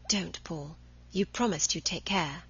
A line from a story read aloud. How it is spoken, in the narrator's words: Cahill whispered